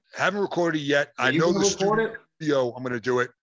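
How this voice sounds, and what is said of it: Noticeable accent. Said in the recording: “My accent will stand out. Like, you're going to know when it's me talking.”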